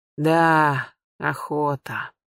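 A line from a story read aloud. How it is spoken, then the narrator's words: Sighing older huntsman. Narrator (Russian): вздохнул старший егерь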